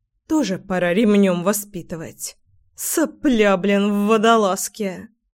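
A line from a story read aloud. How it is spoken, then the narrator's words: Grumbling. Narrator (Russian): Проворчала Лина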